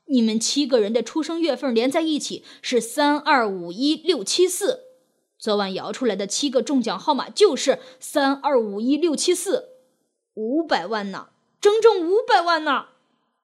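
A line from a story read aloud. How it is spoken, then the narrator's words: Loud. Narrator (Chinese): 又大声说道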